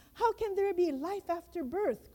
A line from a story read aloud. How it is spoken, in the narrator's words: cried the first twin